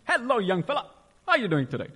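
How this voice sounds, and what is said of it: Energetic imitated voice. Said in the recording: “in his energetic voice,”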